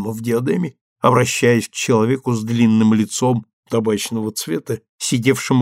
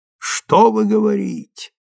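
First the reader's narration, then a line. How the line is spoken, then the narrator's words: Through clenched teeth. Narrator (Russian): процедил он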